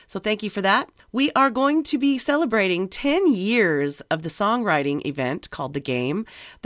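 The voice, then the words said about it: Voice slightly congested from a cold. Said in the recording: “I have a little cold”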